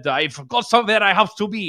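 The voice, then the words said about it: Klaus Schwab impression, not very menacing. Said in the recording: “my Klaus Schwab impersonation, ... It could have been a little bit more menacing.”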